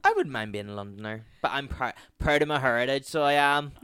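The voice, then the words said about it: Non-London, Irish accent. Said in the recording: “as you can tell from our accents, we are not Londoners”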